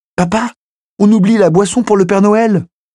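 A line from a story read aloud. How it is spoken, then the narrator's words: Exclaiming. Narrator (French): s'écria Emily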